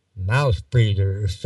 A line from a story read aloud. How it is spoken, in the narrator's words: muttered the child left behind